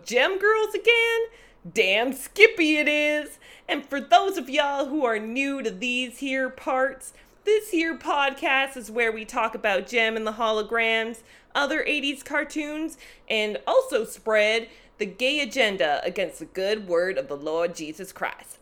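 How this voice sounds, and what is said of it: Exaggerated bad Southern US accent. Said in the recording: “atrocious southern accent”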